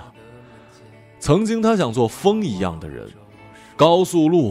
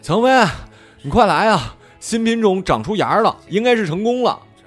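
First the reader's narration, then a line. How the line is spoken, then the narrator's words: Loud shout. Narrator (Chinese): 他大声喊着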